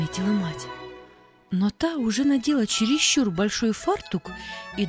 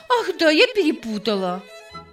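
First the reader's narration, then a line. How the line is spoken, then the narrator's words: Laughing. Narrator (Russian): снова рассмеялась Сади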